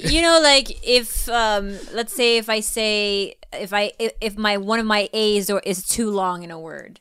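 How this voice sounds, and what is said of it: Filipino-accented English. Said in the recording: “having a Filipino accent”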